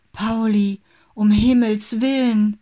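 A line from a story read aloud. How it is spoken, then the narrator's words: Frightened cry. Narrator (German): rief sie erschrocken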